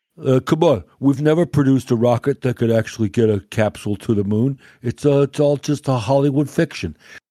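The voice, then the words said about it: Joe Rogan impression. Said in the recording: “my expert Joe Rogan impression”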